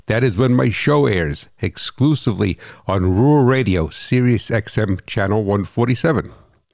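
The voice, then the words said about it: New Jersey accent. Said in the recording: “the hot rod farmer from New Jersey ... this funny accent”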